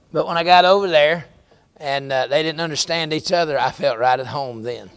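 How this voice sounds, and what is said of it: Southern American accent. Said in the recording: “my accent, which is very American and very Southern”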